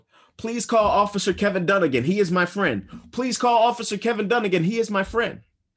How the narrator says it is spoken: I yelled

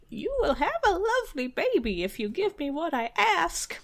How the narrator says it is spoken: a little squeaking voice near his foot said

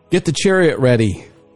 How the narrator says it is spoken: Joram shouted

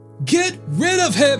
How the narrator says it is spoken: the mass of people yelling

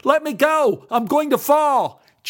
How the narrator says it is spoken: lost his footing and shouted out in alarm

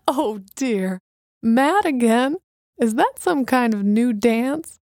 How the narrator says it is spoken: she managed to blurt out between gales of laughter

